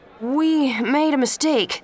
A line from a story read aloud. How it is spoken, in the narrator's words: the voice said nervously